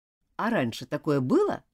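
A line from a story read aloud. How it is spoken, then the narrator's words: Plain question. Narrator (Russian): спросил староста Уильям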